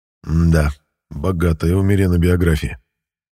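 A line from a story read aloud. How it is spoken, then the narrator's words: Wry snort. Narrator (Russian): хмыкнул я на русском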